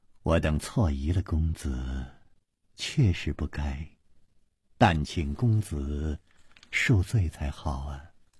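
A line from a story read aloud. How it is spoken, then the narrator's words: Sighing. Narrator (Chinese): 王妃又叹了一口气接着说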